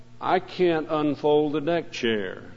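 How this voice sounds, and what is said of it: Sad voice. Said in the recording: “in a sad voice”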